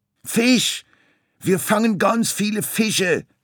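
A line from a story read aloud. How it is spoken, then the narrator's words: Called. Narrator (German): rief Lachmöwe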